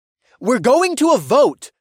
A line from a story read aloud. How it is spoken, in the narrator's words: I shouted over the din of the crowd